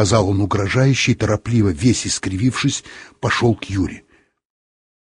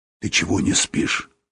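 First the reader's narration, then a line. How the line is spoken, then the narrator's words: Whisper. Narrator (Russian): сказал он шепотом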